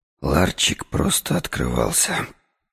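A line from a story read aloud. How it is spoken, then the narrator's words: Muttered. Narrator (Russian): пробормотал я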